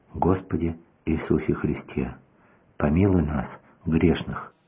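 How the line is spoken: Old man's sighing whisper. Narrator (Russian): Старичок вздыхал, и тихим шепотом он говорил

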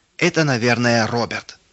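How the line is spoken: Shouted. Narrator (Russian): выкрикнул Рудик

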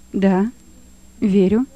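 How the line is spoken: Calm answer. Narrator (Russian): ответил Лёва, спокойно

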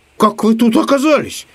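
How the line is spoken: Surprised shout. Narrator (Russian): От удивления закричал Самоделкин

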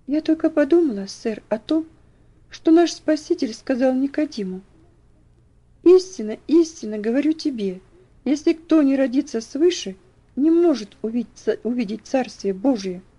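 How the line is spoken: Timid reply. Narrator (Russian): Элси робко ответила

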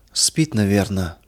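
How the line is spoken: Whisper, old woman. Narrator (Russian): прошептала старушка

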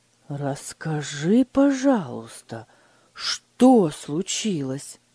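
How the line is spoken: Gentle, trying to stay calm. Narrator (Russian): мягко спросил Фридрих, стараясь сохранить спокойствие

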